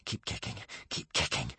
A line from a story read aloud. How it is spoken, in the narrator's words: whispered Hiccup